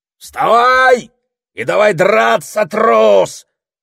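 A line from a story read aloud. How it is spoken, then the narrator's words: Yelling. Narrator (Russian): вопил он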